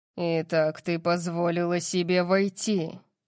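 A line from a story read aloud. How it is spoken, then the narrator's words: Growled. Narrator (Russian): прорычал он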